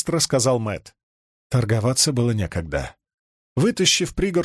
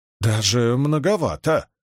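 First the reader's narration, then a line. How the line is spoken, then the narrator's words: Trembling voice. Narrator (Russian): дрожащим голосом произнес он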